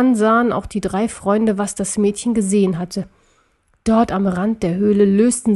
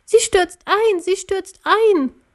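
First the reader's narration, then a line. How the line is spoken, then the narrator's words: Shrill girl's cry. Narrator (German): ein Mädchen mit schriller Stimme rief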